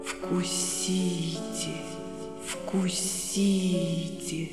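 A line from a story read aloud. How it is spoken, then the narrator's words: Serpent's whisper. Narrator (Russian): Этот змей шептал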